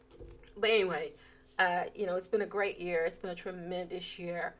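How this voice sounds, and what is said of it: Hoarse, strained voice. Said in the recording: “Trying to lose my voice.”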